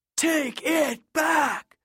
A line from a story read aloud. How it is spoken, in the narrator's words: the PA roared